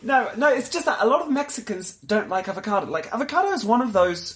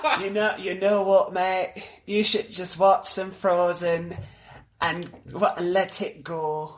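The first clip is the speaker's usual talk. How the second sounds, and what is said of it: Put-on Yorkshire accent. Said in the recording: “It's mostly Yorkshire Valley, you know? You have to sit in a Yorkshire accent.”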